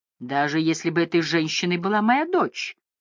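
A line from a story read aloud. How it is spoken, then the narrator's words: Cheerful laughter. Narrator (Russian): Он весело рассмеялся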